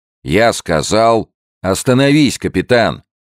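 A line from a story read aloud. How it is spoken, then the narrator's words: Shouted. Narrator (Russian): закричал Генри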